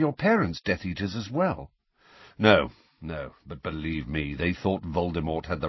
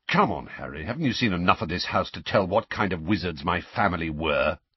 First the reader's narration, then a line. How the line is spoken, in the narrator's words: said Sirius testily